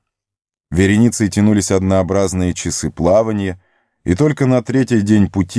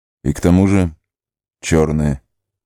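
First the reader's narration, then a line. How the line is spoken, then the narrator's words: Grim. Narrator (Russian): мрачно добавил Арагорн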